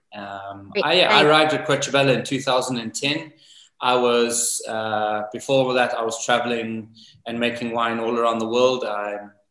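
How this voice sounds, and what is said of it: South African accent. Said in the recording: “As you can hear from my accent, I don't have a typical accent from Greve. ... born and raised in South Africa”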